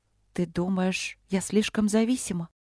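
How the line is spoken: Quiet question. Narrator (Russian): тихо спросила Василина

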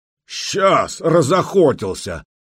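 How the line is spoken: Bearded warrior shouting back. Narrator (Russian): крикнул в ответ бородатый воин

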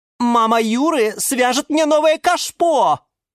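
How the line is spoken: Shouted. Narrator (Russian): закричала орхидея Галатея

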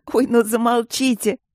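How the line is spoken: Sobbing with laughter. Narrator (Russian): Девушка уже рыдала от смеха

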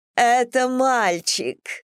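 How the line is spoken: Cry, half laughing, half sobbing. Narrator (Russian): вскричала, не то смеясь, не то рыдая

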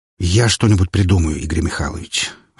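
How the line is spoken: Sighing. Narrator (Russian): вздохнул он

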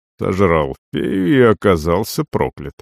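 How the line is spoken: Muttering. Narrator (Russian): пробормотал я

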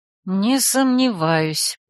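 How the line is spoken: Muttering. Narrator (Russian): пробурчала я

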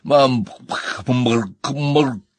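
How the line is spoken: Hoarse, choked wheeze. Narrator (Russian): Хрипела Энни, все еще держась за горло

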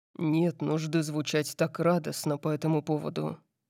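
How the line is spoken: Muttered with amusement. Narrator (Russian): пробормотал Дариус, в его голосе звучало что-то вроде веселья

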